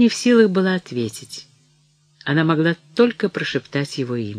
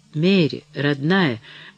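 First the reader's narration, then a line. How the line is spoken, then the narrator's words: Tender murmur. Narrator (Russian): бормотал Деннис, подойдя к ней совсем близко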